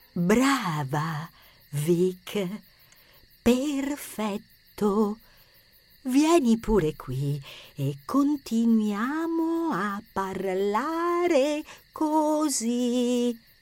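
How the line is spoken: Whispered, clearly enunciated. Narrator (Italian): Rosa le sussurrò, scandendo bene le parole

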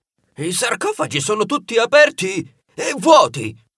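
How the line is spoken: Shocked exclamation. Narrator (Italian): Quando si rese conto di quello che era accaduto mentre lui era imprigionato nel sarcofago, esclamò

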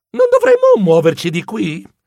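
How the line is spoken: Exclaiming. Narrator (Italian): Ercole esclamò

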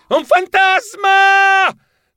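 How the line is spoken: Shouted. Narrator (Italian): gridai

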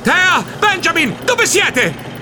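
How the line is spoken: Desperate scream. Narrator (Italian): urlai disperato

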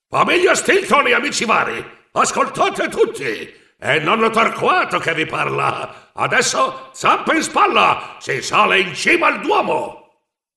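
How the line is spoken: Thundering through a megaphone. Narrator (Italian): prese il suo megafono e tuonò

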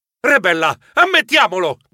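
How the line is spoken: Shouted. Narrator (Italian): gridai

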